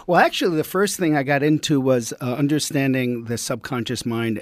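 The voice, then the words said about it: US East Coast accent. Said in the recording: “I could tell by your accent you're from the East Coast”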